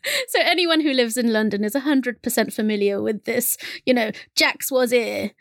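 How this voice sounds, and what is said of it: London accent. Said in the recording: “that really cool accent ... I love it when you go all London.”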